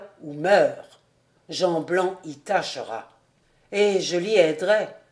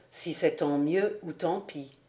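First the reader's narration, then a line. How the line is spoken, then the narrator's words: Murmured. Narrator (French): murmura Jude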